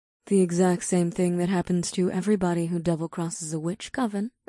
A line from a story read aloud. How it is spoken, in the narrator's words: Ada said in a nonchalant tone